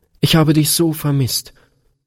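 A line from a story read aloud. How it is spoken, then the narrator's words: Sobbing outburst. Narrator (German): stieß Gretchen schluchzend hervor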